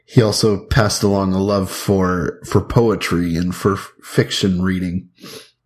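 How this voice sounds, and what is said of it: Smooth, deep voice. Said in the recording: “this smooth, deep voice that I have”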